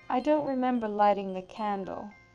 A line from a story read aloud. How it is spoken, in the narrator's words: I said aloud to myself, my voice quivering